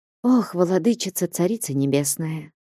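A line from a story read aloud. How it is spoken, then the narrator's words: Sighing. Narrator (Russian): вздохнула игуменья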